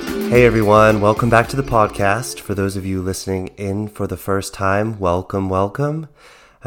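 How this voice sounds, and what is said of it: Cracking, strange-sounding voice. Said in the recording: “my voice cracking or sounding a bit strange today, I've been battling a cold”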